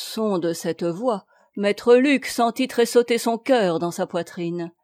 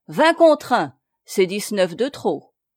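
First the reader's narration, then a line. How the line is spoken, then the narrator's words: Curt and haughty. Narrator (French): dit le nouveau venu d'un ton bref et hautain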